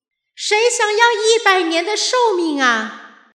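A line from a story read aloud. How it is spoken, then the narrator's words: Shouting with full strength. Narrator (Chinese): 天神这一用尽全力的喊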